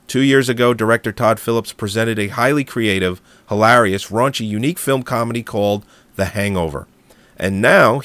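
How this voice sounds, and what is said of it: Hoarse, froggy sick voice. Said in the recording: “my voice sounds a little hoarse. I am a little bit sick ... I'm a little froggy.”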